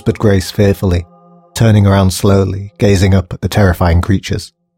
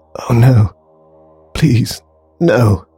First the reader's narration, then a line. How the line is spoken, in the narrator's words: croaked Grace, her voice cracking in terror